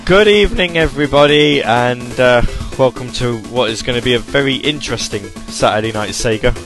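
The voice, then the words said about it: Croaky, hoarse voice. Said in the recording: “My voice, I'm going to warn you now, is going to be all over the place ... suffering from a little bit of the aftermath of a cold ... I've got a bit of a sore throat ... a bit of coughing and a bit of croakiness”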